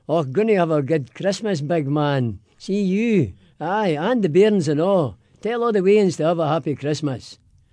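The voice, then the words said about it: Broad Glaswegian Scottish accent. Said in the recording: “in a Scottish brogue ... in a Scottish accent, in Glaswegian”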